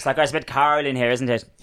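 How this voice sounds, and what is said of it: Put-on Northern Irish accent. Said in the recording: “Then a Northern Irish is a bit like that.”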